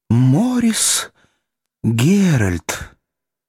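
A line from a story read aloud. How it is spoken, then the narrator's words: Quiet young woman. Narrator (Russian): тихо произнесла юная креолка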